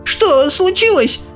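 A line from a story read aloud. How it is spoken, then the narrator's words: Old woman exclaiming. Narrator (Russian): воскликнула бабушка Джозефина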